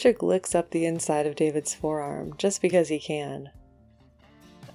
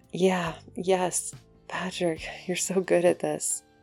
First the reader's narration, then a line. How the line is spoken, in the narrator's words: David moans, voice utterly wrecked